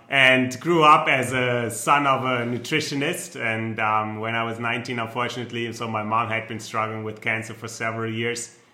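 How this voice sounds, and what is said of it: German accent. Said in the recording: “I'm German, so you might tell by my accent, some can pick it up”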